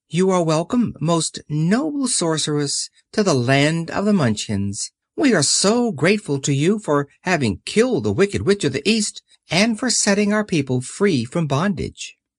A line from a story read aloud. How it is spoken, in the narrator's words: the little old woman said in a sweet voice